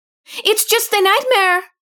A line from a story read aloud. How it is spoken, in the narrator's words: Anita yells